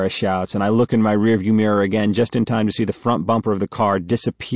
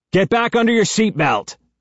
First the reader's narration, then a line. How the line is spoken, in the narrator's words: I yell at Sarah